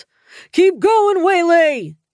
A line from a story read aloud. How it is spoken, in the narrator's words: Dad shouted